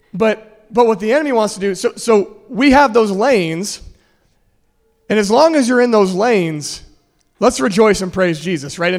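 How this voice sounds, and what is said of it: Strained, failing hoarse voice. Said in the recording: “I'm losing my voice,”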